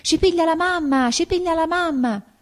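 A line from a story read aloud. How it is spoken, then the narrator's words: Children screaming. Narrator (Italian): I bambini urlavano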